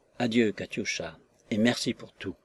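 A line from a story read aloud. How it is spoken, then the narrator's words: Softly. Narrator (French): lui dit-il tout bas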